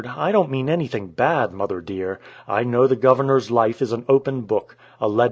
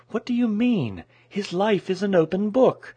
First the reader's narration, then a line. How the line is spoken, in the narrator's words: she exclaimed a little stiffly